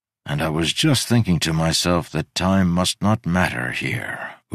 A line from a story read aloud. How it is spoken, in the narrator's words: Udo sighed